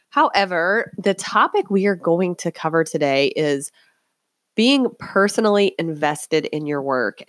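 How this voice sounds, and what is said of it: Hoarse, croaky sick voice. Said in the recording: “apologize for my voice. I'm a little bit under the weather today, and I'm sure you can tell that by the way my voice sounds like it has a frog in it.”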